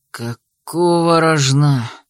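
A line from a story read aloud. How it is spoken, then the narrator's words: Exhaled exclamation. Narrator (Russian): выдохнул Йохан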